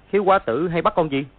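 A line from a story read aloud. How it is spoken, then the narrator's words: Cold question. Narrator (Vietnamese): Gã khiếu quá tử lạnh lùng hỏi lại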